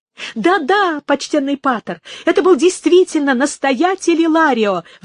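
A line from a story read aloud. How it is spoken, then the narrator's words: Exclaimed. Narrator (Russian): воскликнул он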